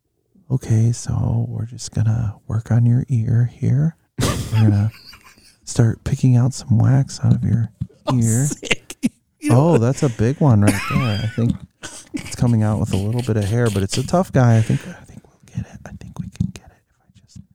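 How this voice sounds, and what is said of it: Soft ASMR-style voice. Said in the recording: “your best ASMR impression”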